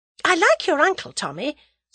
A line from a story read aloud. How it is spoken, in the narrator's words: said Tuppence, hastily